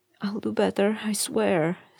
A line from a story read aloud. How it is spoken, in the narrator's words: Sam said, his voice wobbly